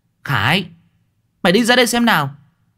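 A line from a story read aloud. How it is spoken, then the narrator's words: Loud ringing shout. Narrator (Vietnamese): Cô Thơm tiếng quát sang sảng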